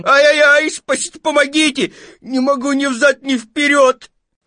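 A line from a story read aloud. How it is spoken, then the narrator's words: Desperate wail. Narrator (Russian): он завопил отчаянным голосом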